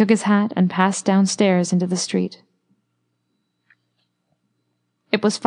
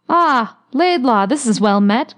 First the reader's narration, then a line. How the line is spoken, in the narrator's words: cried a voice at his elbow